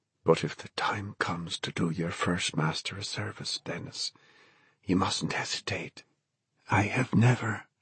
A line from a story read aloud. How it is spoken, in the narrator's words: Brandon said, and then whispered